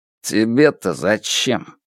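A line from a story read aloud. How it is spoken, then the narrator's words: Grumbled. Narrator (Russian): пробурчал он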